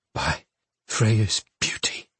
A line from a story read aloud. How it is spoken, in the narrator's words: she said, her voice low and halting as she took shallow breaths